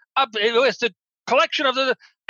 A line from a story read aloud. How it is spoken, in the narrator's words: starts to stammer and goes